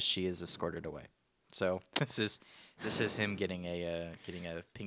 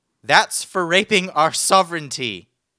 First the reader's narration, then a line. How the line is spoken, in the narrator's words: the person shouting